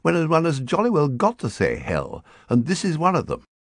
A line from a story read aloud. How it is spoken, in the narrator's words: replied firmly